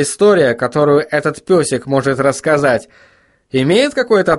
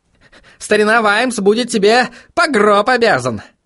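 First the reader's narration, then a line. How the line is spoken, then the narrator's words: Snort. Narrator (Russian): фыркнул В горле кость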